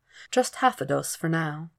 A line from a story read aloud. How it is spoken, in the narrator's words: he says gently